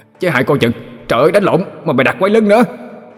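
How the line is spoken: Panicked shout. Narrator (Vietnamese): Hai nanh hoảng hồn la lên

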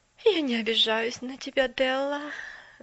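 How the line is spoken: Sighing. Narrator (Russian): вздохнула мисс Керри

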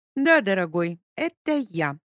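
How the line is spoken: Loud. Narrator (Russian): громко сказала Леся

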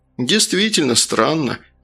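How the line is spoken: Relieved sigh. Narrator (Russian): облегченно вздохнул первый зам

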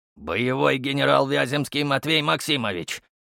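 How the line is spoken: Growled. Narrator (Russian): рыкнул мужик

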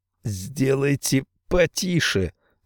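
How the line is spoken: Weak wheeze. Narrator (Russian): слабо просипел Тах

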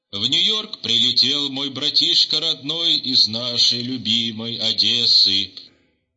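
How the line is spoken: Muffled wheezing radio voice. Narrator (Russian): глухо хрипело радио

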